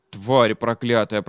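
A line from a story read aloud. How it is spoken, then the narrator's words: Trembling mutter. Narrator (Russian): пробормотал он дрожащим голосом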